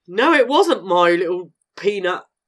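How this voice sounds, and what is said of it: Imitates another person's voice. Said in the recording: “Is that a good impression, though? ... Yeah, it's perfect.”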